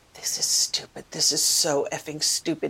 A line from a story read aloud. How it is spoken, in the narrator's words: muttered over and over